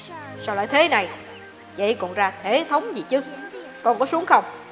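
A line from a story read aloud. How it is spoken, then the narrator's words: Angry royal shout. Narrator (Vietnamese): Vua Càn Long tức giận quát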